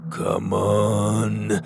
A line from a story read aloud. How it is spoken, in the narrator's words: Maximus grunted